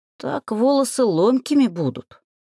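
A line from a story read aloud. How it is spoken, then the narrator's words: Grumbled. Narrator (Russian): проворчала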